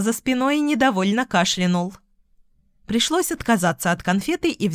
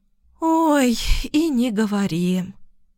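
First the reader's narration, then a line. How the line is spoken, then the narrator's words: Heavy sigh. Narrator (Russian): Вздохнула тяжело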